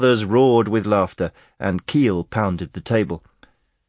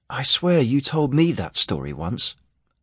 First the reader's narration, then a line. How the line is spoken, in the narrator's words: Aaron murmured to him